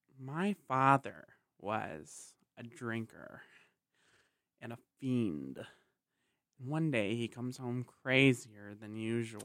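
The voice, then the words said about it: Joker character voice with lip smacks. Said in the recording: “my Joker impersonation ... Dude, you even got the lip smacks.”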